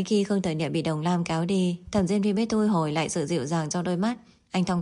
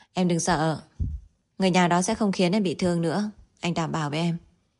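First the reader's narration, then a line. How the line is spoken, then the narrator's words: Calm, smiling. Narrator (Vietnamese): Thẩm Diên Phi bình tĩnh mỉm cười, hỏi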